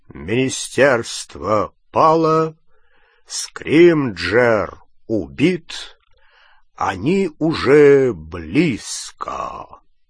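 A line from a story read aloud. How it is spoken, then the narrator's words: Loud, low, drawling voice. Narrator (Russian): Патронус громким, низким, тягучим голосом Кингсли Бруствера сообщил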